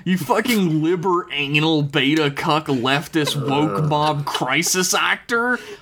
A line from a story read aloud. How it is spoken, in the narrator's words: Harvey bellowed